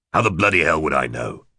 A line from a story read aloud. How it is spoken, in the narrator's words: He snapped